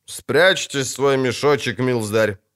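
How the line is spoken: Menacing. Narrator (Russian): грозно произнес будущий сотник

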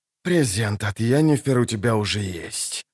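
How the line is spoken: Hoarse. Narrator (Russian): прохрипел

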